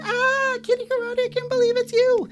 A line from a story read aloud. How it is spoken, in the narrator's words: a bunch of fans ran up to Kitty, as they usually did, and they screamed